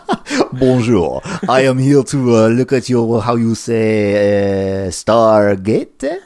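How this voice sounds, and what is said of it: Put-on French accent. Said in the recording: “he comes in with a French accent.”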